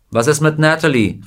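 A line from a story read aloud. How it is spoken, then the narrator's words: Calling out. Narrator (German): rief jemand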